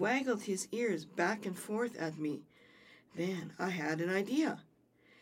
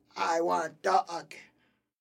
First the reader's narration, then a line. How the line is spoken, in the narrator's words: The troll squealed and growled